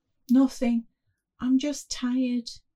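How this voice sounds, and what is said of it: Small, quiet voice. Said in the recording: “in a little voice.”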